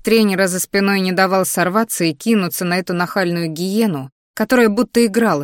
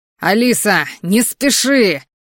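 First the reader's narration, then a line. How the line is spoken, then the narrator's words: Coach shouting. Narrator (Russian): опять закричал тренер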